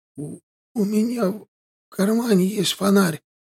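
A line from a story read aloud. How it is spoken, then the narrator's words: Moaning. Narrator (Russian): простонал звяга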